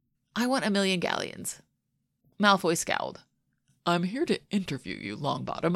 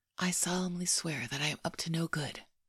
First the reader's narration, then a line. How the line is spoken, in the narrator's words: Harry whispered